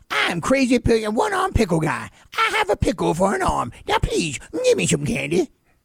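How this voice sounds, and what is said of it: Crazy one-arm pickle guy character voice. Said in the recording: “crazy one-arm pickle guy, like when it's Halloween ... to do that voice”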